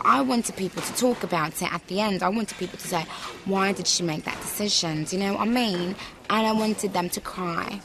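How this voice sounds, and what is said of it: Put-on British accent. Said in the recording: “British accents ... she completely switched into another accent”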